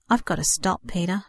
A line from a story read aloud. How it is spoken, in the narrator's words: said sadly